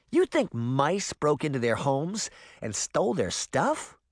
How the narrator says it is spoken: Sabrina asked with a snort

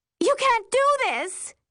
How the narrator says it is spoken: I yell

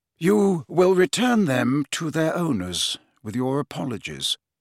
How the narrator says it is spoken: said Dumbledore calmly

